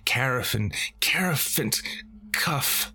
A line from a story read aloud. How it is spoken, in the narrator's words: while she cried